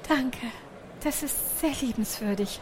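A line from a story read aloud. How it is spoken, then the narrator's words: Breathy small mouse. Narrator (German): hauchte die kleine Maus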